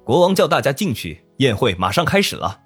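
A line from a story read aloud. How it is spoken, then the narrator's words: Loud voice from crowd. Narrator (Chinese): 人群中突然有人大声说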